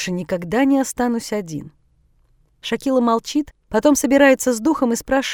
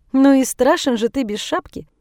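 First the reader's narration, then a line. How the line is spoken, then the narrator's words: Cheerful. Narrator (Russian): весело замечает Шакила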